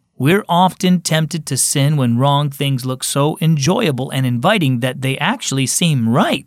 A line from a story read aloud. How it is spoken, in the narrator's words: said Grandpa